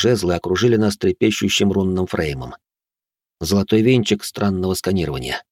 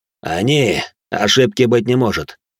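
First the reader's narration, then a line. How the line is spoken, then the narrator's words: Plain. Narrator (Russian): ответил третий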